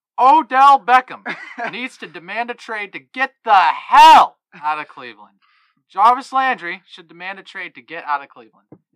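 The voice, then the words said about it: Stephen A. Smith impression. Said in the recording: “do it in a Stephen A. Smith voice ... a very good impression ... it was solid”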